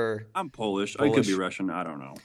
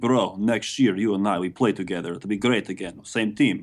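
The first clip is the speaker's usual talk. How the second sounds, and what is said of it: Fake Russian accent, fairly convincing. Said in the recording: “you're getting your Russian accent down pretty good, man ... your fake, but very, could, very, very, very close Russian accent”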